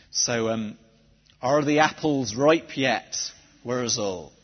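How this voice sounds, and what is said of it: Put-on Somerset accent. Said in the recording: “drag out my Somerset accent.”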